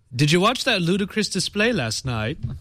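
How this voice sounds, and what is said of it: Bad attempt at Cockney accent. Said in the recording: “Do I have to do it in a bad accent? ... it's supposed to be Cockney ... that was the worst accent.”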